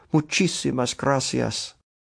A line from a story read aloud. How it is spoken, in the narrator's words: Candido a murmur of